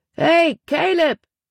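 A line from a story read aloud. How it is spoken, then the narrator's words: Man calling out. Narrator (German): rief er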